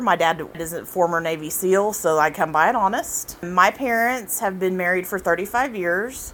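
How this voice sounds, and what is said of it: Southern American accent. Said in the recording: “I do have a southern accent. My redneck side tends to come out at times.”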